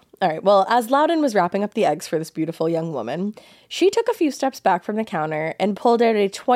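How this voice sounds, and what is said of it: Usual voice. Nothing is said of it.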